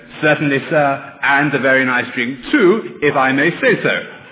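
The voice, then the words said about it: Robotic electronic English-accented voice. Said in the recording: “he'll answer back in his best electronic English accent”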